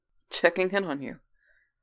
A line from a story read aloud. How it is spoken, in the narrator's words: laughed